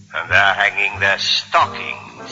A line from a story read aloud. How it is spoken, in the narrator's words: he snarled with a sneer